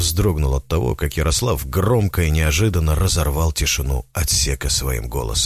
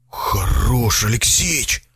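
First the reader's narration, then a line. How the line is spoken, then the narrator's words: Frightened hoarse wheeze. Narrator (Russian): прохрипел он испуганно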